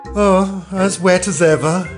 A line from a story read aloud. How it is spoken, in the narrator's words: said Alice in a melancholy tone